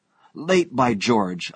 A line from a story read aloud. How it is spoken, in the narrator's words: I exclaimed